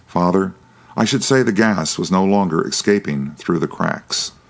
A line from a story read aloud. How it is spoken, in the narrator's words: he exclaimed in an altered voice